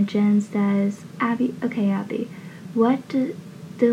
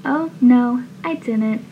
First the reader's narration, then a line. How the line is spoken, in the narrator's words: Abby laughs and says